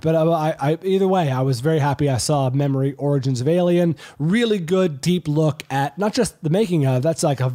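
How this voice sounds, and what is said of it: Hoarse, congested voice from cold. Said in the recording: “If you can hear my throat, I've got a cold.”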